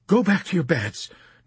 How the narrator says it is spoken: Nurse Duckett pleaded with Dunbar and Yossarian

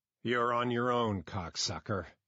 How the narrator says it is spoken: Eigerman purred

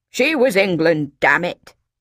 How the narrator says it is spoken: he growled

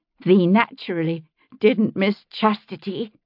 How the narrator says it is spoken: Sylvia said, her voice trembling with rage

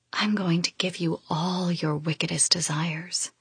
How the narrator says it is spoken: I whisper, the siren thick in my voice

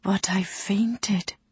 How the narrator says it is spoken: she whispered

